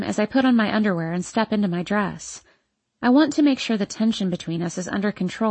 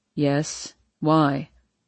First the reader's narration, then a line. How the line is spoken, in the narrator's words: Harden coolly responds